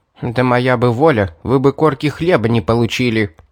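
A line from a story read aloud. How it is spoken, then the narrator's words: Grumbling maid. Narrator (Russian): проворчала служанка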